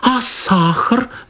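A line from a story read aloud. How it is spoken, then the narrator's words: Exclamation. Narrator (Russian): воскликнула Анна Николаевна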